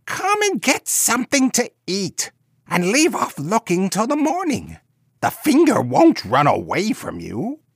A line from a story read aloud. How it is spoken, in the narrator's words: the old woman cried